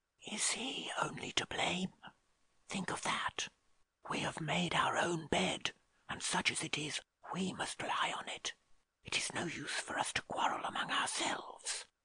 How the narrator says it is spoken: she added, whispering into his ear

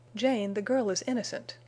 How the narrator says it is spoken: he cried

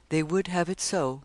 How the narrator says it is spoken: After gazing upon the scene sadly and in silence for a time, he said

